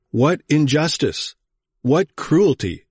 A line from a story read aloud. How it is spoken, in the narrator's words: exclaimed Jerome